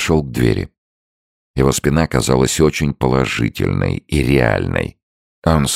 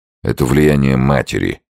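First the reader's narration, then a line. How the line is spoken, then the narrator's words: Grumbled. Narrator (Russian): проворчал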